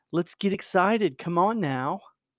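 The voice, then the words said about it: Sarcastic mock enthusiasm. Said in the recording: “I'm being sarcastic, maybe.”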